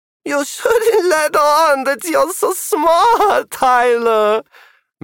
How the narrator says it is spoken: Magnus Galka said, giggling

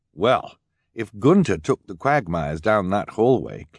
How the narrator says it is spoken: Klaus said

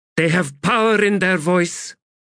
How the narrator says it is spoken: Faradan Sort shouted

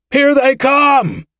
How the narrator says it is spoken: shouted a voice

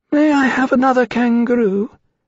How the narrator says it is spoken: Kulingile sighed, reassured, said in his thin voice

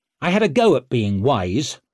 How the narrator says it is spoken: snapped Leo

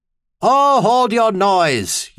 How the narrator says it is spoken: Uthane had bellowed back through his speaking trumpet

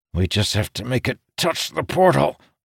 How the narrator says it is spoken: Amandal said, his voice strained

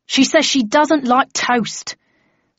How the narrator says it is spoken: said the floor manager in an exasperated tone

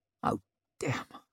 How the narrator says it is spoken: muttered around a mouthful of carrot with the consistency of firewood

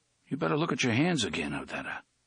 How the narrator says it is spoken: Eddie said quietly

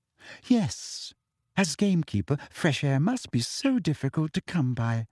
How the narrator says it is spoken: said Umbridge sweetly

